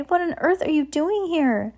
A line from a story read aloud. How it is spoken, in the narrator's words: cried